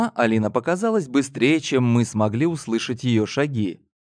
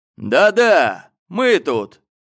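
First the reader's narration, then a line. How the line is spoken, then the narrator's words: Shout. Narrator (Russian): крикнул он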